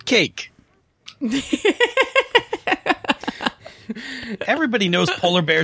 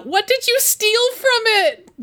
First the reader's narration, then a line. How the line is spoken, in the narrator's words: she's going to yell out